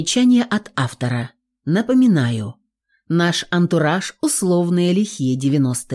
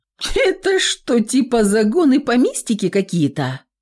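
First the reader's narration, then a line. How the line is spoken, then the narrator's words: Snorting, curious. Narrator (Russian): фыркнула рыжая любопытина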